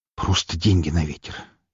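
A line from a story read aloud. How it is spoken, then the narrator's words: Barely audible snort. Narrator (Russian): едва слышно фыркнул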